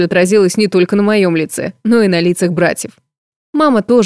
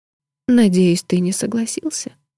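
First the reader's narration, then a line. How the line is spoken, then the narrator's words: Mouthed whisper. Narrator (Russian): прошептала я одними губами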